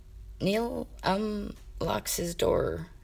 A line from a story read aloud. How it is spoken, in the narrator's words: he muttered, his voice growing quieter with every syllable